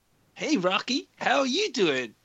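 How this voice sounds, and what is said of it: Impression of cartoon moose Bullwinkle. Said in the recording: “doing an impression of Bullwinkle from Rocky and Bullwinkle”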